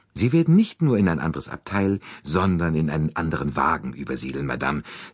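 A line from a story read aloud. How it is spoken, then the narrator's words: Plain. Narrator (German): sagte er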